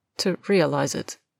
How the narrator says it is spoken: Draco repeats quietly

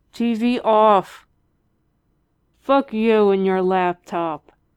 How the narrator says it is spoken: Dean slurred back, his face pressed into his pillow

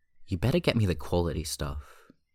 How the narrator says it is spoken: Hyunjin says

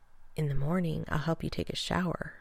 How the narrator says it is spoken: John whispered into Rodney's ear

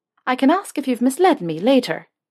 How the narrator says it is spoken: she said, her voice light and a smile on her lips

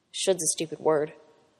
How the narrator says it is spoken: Pete said quietly

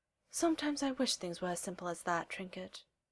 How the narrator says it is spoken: sighs

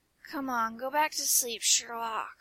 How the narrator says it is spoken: he slurs

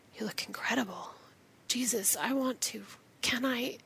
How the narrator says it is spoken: the image of John leans forward, touches his fingers to Rodney's lips, and whispers

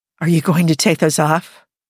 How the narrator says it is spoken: Jim breathed

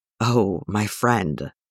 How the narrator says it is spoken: he murmurs

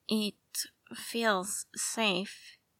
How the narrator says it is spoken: Will says slowly

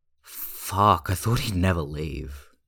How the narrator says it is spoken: Hyunjin groans into the sofa cushion

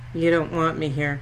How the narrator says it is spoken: Cass says, his voice flat and inflectionless

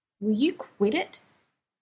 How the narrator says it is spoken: Dean snaps, but his mouth is so full, so it comes out mushy

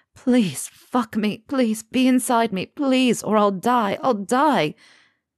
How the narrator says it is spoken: Harry sobs out

